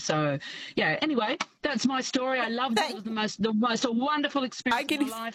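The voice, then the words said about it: Passionate, heartfelt speaking. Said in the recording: “I can hear the passion in your voice”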